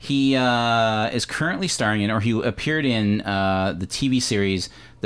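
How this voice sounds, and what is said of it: Usual voice. Nothing is said of it.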